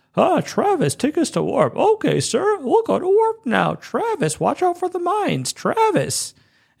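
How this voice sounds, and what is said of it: Imitates other characters' voices. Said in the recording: “They don't actually talk like this. I'm just imitating them.”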